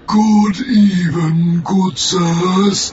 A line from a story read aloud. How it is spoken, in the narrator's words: wheezed